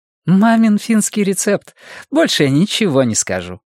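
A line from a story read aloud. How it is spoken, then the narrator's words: Laughing. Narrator (Russian): рассмеялась Диса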